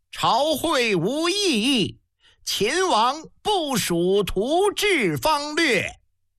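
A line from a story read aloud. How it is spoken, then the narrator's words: Official's loud proclamation. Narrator (Chinese): 司礼大臣高声宣呼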